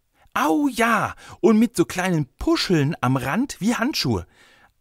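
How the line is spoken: Excited boy. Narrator (German): antwortete der Junge aufgeregt

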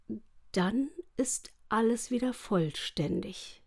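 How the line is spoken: Quiet. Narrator (German): sagte er leise

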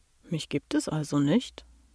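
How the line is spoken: Teen's deep grinning mumble. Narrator (German): murmelte der 17-Jährige grinsend mit seiner bassigen Stimme

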